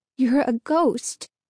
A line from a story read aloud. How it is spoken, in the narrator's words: repeated, her voice trembling